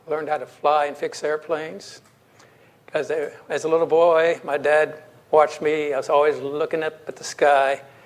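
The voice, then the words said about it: Texas accent. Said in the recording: “I was born in Texas. You can tell by my accent.”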